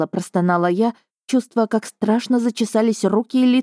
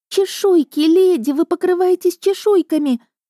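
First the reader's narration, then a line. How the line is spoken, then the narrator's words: Shriek. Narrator (Russian): Она взвизгнула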